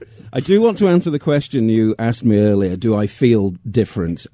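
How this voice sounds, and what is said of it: English Manchester accent. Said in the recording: “your accent hails from where? ... Manchester, England.”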